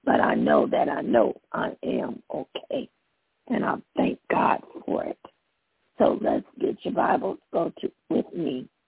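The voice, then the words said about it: Hoarse, congested voice. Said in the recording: “I'm a little hoarse. ... Probably quite a little bit hoarse ... I'm dealing with a little bit of congestion”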